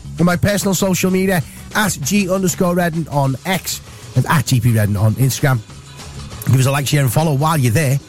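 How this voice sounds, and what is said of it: Husky, raspy voice from illness. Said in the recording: “I've got this terrible kind of chest infection cold thing going on. So I'm a bit husky, a bit raspy”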